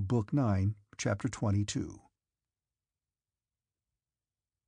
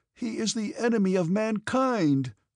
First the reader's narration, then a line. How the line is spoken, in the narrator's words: cried another